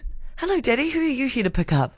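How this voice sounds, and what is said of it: Baby voice. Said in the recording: “It's like a baby voice ... that was my baby voice”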